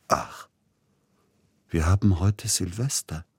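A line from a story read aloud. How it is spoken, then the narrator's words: Sudden very soft voice. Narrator (German): sagte er plötzlich ganz leise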